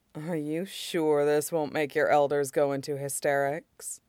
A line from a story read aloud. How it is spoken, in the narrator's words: Toka asks dryly